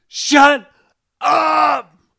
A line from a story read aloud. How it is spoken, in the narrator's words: Kisha wailed